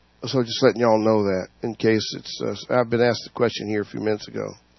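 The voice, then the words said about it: Slightly hoarse voice. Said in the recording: “A little bit hoarse, but I'll make it through it. ... I got 10,000 recipes how to get rid of the hoarseness.”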